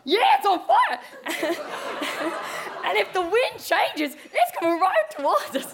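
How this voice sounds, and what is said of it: Unidentified put-on accent. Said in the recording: “I have no idea what accent I'm doing now.”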